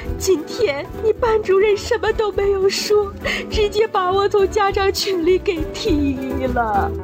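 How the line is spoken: Angry crying. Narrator (Chinese): 老妈听完更生气了，哭着说道

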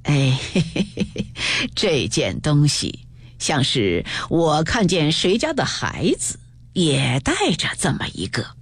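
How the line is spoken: Laughing. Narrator (Chinese): 贾母笑道

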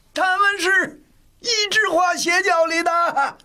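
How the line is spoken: Reckless loud shout. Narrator (Chinese): 米孝祖也豁出去了，大声叫道

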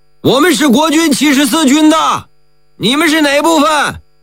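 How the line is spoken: Loud shout. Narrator (Chinese): 侦察参谋大喊一声

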